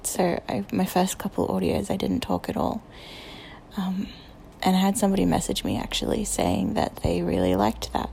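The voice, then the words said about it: Australian accent. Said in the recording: “my accent. I know people like Australian accents”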